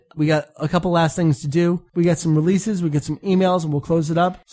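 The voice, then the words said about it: Strained voice giving out. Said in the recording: “My voice is giving out a little bit.”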